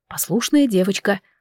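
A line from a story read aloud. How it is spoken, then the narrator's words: Whisper in ear. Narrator (Russian): прошептал мне на ухо Эндал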